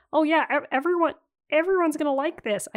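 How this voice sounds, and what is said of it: Bad impression of another person's voice. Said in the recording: “my really bad George Lucas impression... I just sound like Jordan Peterson”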